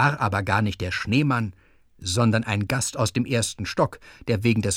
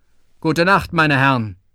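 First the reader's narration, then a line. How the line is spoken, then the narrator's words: Very loud snowman reply. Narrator (German): der Schneemann antwortete ganz laut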